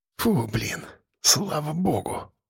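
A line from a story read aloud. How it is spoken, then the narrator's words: Relieved near-whisper. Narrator (Russian): вырвалось у Лехи почти шепотом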